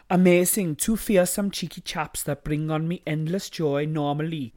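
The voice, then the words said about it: Attempted South African accent. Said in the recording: “What is this accent? South Africa.”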